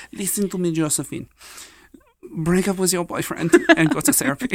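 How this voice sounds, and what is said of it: Put-on accent sounding German. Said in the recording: “that was like a German accent. ... We're all over the place with our French today.”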